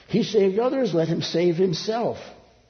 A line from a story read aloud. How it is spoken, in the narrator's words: the rulers were yelling